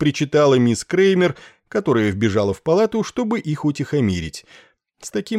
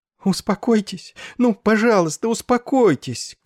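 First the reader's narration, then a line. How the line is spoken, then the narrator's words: Sobbing pleading. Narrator (Russian): крупно сотрясаясь от рыданий, умоляла она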